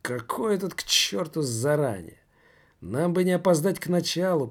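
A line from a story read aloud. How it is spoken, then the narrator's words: Mutter. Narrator (Russian): пробормотал тот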